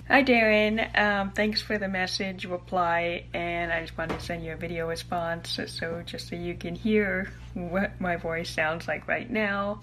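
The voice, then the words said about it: Pronounces R sounds like W. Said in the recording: “she can't say the R's ... you're not pronouncing your R's ... you're not creating that sound, you're creating a W. So you're doing it with your lips”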